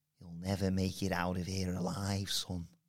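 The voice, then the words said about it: Put-on Scouse accent, sinister threat. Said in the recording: “Say like a sinister, scary threat in a scouse accent.”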